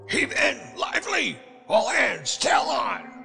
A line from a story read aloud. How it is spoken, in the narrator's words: Wolf Larsen shouted